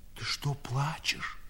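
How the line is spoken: Whispering old man. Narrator (Russian): шепотом спросил старик

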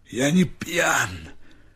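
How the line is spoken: Hoarse reply. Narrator (Russian): хрипло ответил Степа

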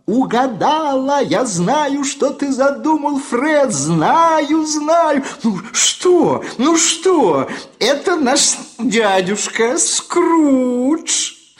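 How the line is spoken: Laughing exclamation. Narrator (Russian): пухленькая сестричка-племянница расхохоталась вдруг и воскликнула

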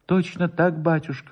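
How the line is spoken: Trembling voice. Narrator (Russian): повторил Воробьев дрожащим голосом

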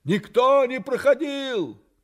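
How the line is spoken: Shouting down. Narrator (Russian): крикнул вниз

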